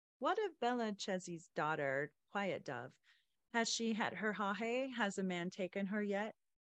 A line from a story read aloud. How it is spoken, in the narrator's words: laughed aloud